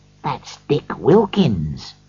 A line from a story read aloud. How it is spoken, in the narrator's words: said Scrooge quietly to the ghost